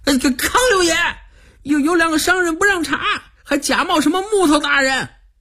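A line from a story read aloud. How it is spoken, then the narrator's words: Shouting. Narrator (Chinese): 他回过头去喊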